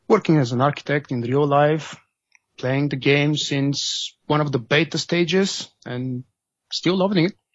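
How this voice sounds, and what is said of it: Eastern European accent. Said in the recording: “I have a very typical Eastern European accent... It is a great accent”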